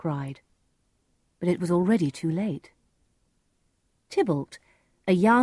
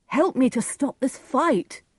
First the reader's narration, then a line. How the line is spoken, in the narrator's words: Benvolio cried to him